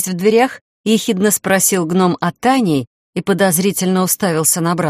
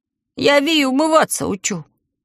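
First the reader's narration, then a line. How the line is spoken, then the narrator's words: Meek little lying voice. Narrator (Russian): кротким голоском соврал Талм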